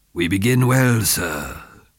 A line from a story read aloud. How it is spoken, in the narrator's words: the fat man purred